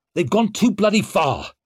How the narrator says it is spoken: snapped Leo

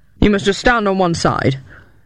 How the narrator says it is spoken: answered the rider in a gruff tone

